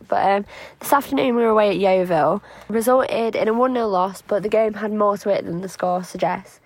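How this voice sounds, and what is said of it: Slightly hoarse voice. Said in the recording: “my voice being a bit hoarse. I've had a bit of a cold this week”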